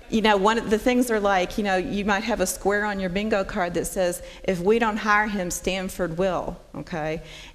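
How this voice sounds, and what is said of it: Southern US accent. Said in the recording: “if y'all can't tell from my accent, I'm from the South”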